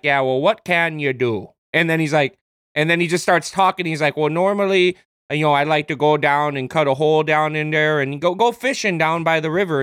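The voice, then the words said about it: Bad Canadian accent. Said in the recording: “accent, a bad Canadian accent ... it's a great bad accent”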